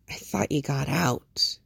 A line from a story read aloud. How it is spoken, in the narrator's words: says softly